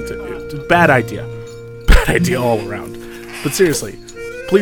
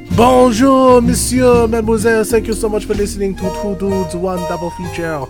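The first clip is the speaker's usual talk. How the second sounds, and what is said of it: Bad put-on French accent. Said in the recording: “I am now going to end this French accent because it is absolutely terrible ... I am so, so sorry for even attempting a French accent.”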